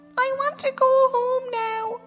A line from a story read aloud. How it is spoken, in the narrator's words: Queen Bathe wailed